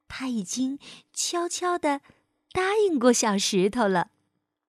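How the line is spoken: Soft, smiling. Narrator (Chinese): 小柠檬笑着小声说

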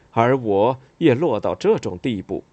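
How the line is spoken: Lamenting sigh. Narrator (Chinese): 感叹道

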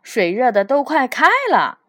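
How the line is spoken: Shouting. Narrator (Chinese): 罗斯吼道

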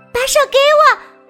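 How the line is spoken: Loud shout. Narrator (Chinese): 小刺猬大声喊道

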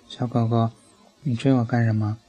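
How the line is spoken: Cheerful grinning. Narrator (Chinese): 司机笑嘻嘻地说

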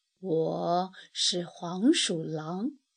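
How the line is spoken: Low voice. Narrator (Chinese): 他低声说

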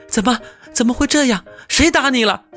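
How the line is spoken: Urgent worried question. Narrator (Chinese): 小黑熊的妈妈急忙问

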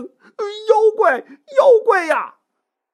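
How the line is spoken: Frightened shout. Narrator (Chinese): 吓得大喊一声

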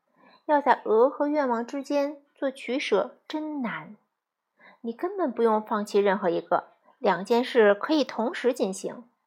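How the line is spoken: Sighing. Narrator (Chinese): 我叹道

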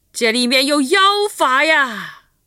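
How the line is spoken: Sinister shout. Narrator (Chinese): 人群里有个阴险的声音喊道

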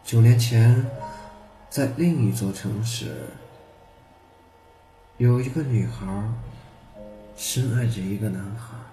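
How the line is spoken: Sighing old man. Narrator (Chinese): 老人无不叹息地说

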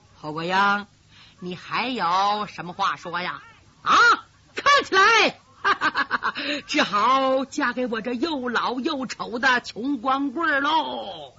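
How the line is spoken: Laughing. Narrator (Chinese): 姊妹人 哈哈一笑

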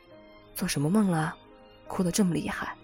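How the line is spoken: Sighing. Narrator (Chinese): 他叹息

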